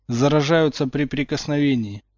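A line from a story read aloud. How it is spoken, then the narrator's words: Hollow, dejected. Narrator (Russian): глухо проговорил Поттер, понурив голову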